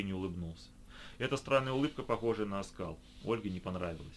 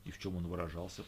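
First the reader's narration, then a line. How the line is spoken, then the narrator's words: Suspicious whisper. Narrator (Russian): прошептала Оля, с подозрением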